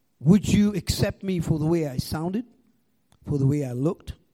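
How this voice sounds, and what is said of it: Foreign accent, somewhat British-sounding. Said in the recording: “listen to my accent ... you sound like British”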